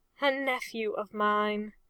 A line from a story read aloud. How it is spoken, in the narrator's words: Dawson had said in a defeated tone